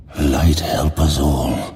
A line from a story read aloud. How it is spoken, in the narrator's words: Khadgar breathed